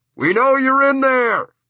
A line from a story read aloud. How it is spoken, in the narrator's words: they shout through a bullhorn